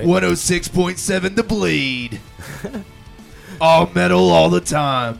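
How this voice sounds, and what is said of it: Hoarse radio announcer voice. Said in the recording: “because I'm hoarse, I've got an awesome radio voice ... Let me hear your imaging voice”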